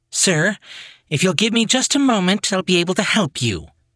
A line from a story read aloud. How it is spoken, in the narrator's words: the stewardess said in an agitated tone